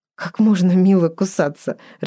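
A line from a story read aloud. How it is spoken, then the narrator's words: Laughing. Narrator (Russian): рассмеялась Ева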